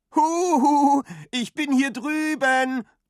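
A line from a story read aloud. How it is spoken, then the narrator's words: Calling out. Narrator (German): ruft Frau Lütchen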